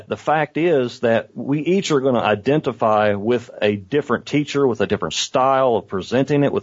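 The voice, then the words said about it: Southern US redneck accent. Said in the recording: “your stupid redneck accent”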